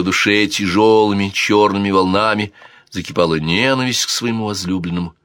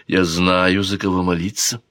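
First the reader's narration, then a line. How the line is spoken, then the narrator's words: Quiet reply. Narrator (Russian): тихо ответила Камила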